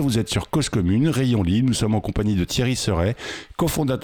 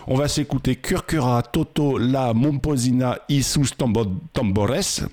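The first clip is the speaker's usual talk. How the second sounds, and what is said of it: Put-on Spanish accent. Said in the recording (French): “J'essaye de prendre mon accent espagnol.”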